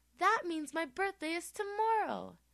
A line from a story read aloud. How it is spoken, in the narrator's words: exclaimed Thomas